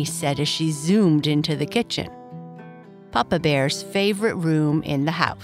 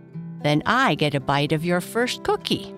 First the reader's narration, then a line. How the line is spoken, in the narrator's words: Papa said, laughing